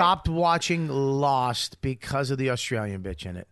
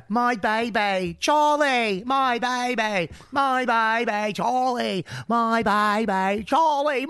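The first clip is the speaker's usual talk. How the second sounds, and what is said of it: Put-on Australian accent. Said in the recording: “Australian accent”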